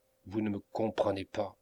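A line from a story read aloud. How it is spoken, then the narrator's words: Coldly satirical. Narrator (French): répéta Melmotte avec un air froidement satirique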